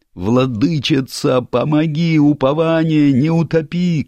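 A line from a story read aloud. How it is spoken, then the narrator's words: Frantic scream, archpriest. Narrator (Russian): кричал не своим голосом протопоп, цепляясь за крутящуюся баржу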